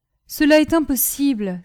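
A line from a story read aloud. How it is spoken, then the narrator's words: Convulsive exclamation. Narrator (French): s'écria-t-elle en laissant échapper un mouvement convulsif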